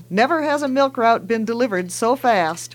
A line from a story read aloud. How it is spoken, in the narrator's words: Daddy laughs and says